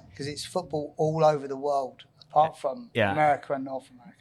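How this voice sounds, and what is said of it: English accent from Essex. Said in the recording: “you grew up in Essex, England... Is that where you got your accent from?... It's not a very strong Medicine Hat accent.”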